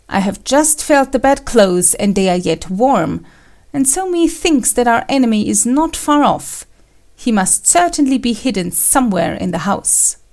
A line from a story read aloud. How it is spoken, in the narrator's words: Kuranosuke exclaimed